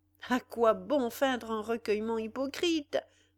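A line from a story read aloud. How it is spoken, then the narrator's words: Exclaiming. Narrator (French): s'écria-t-il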